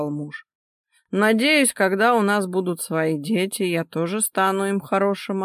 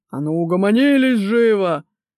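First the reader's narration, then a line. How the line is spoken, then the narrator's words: Very loud bellow. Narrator (Russian): так гаркнул, что, наверное, его электричка заржавела бы от зависти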